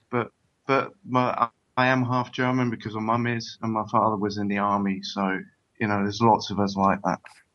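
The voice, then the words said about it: Accent that doesn't sound German. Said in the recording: “I think you can hear by my accent, I'm not that German”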